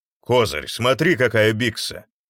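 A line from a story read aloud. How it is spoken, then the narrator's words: Deep voice from darkness. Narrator (Russian): пробасила темнота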